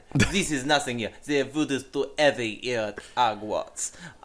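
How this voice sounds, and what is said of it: Put-on European accent, Fleur Delacour. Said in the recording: “Europa dialect ... That is my fleur de la cure”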